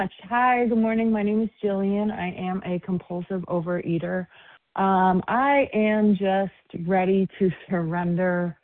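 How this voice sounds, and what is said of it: Excited voice. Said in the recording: “I sound excited.”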